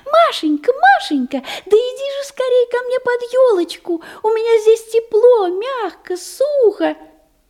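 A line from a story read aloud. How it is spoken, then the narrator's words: Thin high call. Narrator (Russian): зовет тоненьким голосом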